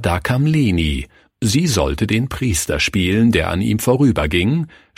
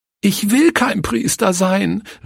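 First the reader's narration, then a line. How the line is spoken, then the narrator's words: Sobbing cry. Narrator (German): rief sie schluchzend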